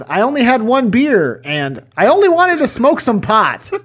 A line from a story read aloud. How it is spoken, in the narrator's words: Botcher was sweating uncontrollably as he yelled